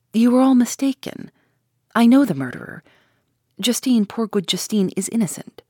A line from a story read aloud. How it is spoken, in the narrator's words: I replied earnestly